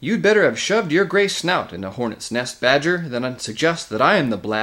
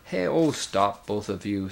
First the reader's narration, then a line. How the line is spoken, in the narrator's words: said King Caspian